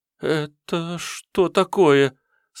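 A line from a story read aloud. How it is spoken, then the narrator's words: Slightly stammering question. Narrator (Russian): слегка заикаясь, спросила администратор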